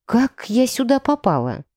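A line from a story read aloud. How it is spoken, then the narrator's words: Whisper. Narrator (Russian): прошептала я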